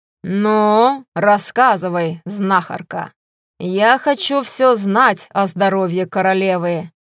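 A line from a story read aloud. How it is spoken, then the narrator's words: Menacing declaration. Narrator (Russian): грозно заявил Грегор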